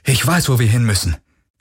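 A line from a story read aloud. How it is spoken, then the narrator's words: Urgent call. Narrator (German): rief er, als er auf die Brücke stürmte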